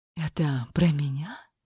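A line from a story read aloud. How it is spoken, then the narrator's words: Dry, hoarse voice. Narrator (Russian): Рот стал совершенно сухим, а голос хриплым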